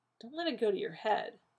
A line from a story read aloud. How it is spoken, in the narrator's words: John muttered